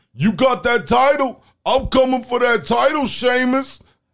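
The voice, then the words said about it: Imitates a wrestler's voice, not convincingly. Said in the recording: “that your Ricochet impression? ... We need to work on that.”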